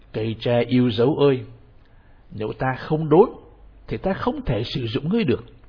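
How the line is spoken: King, increasingly stern. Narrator (Vietnamese): Giọng nói nhà vua càng nghiêm nghị hơn nữa

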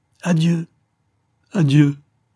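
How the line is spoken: Choked cry. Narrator (French): criait-il d'une voix étranglée

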